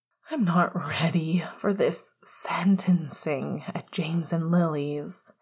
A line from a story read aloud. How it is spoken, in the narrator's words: Remus sighed